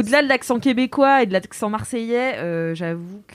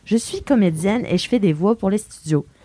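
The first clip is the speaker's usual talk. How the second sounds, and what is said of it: Put-on Canadian French accent. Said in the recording (French): “ferai un accent canadien”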